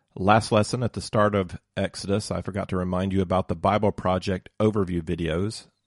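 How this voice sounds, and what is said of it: Hoarse, congested voice. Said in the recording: “excuse my voice today. I've got a bit of a cold.”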